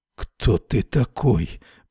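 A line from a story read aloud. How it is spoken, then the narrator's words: Mumbled. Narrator (Russian): пробормотал Эрвин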